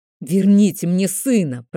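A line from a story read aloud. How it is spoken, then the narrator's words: Hissed, losing composure. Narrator (Russian): прошипел Дорман Бастер, теряя самообладание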